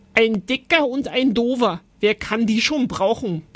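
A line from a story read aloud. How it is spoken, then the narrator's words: Bellow. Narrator (German): brüllte Oskar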